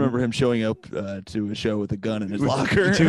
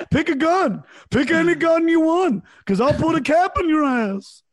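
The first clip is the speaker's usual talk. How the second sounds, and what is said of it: Imitates another person's voice. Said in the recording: “that's a good impersonation.”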